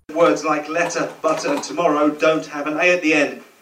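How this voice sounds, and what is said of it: Middlesbrough northern English accent. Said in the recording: “a Middlesbrough accent ... Northern ... This is a man from Middlesbrough.”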